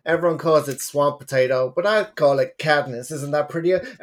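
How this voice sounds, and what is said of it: Deliberately bad Texas accent. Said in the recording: “my terrible Texas accent.”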